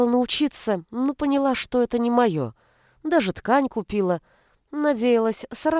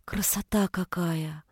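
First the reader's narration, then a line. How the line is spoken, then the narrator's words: Whisper. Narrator (Russian): прошептала Галя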